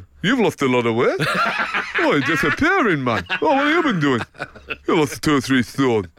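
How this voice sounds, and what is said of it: Frank Clark impression. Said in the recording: “good your Frank Clark impression ... this is excellent.”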